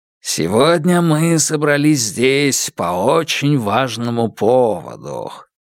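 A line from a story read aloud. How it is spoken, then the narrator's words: Low voice. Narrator (Russian): заговорил тот низким голосом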